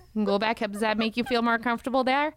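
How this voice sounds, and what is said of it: Put-on Canadian accent. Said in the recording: “we can go up north. We can go back up to your land up there in Canada, eh? ... That accent?”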